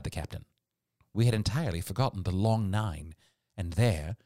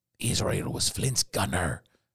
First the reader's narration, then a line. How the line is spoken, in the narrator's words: said Grey hoarsely